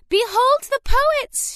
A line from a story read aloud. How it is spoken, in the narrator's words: she cried